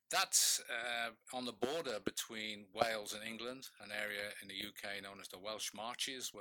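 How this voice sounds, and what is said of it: British accent. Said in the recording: “From my accent, you can probably tell that I wasn't born in this country. I was born in the UK”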